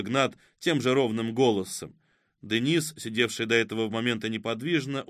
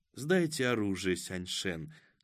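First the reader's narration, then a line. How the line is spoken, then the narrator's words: Gentle soft voice. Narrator (Russian): сказала она нежным голоском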